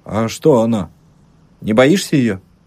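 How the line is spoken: Calm, serious man. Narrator (Russian): Мужик ответил так спокойно и серьезно

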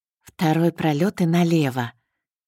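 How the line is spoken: Hissed through teeth. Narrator (Russian): Через зубы прошипел он

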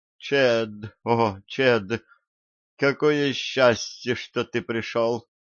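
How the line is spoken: Moaning. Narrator (Russian): простонала

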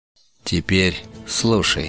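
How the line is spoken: Calm. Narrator (Russian): спокойно продолжил Магарбеш

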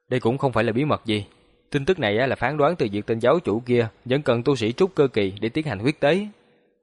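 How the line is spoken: Cool smiling tone. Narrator (Vietnamese): Hàng Lập mỉm cười, lạnh nhạt nói

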